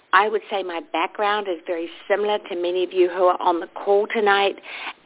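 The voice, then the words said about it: New Zealand accent. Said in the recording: “that little accent that you're hearing, my Los Angeles accent... I'm originally from a little country called New Zealand”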